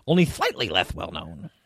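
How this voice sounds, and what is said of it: Imitates another person's voice. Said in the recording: “that's a nice Wallace Shawn impersonation”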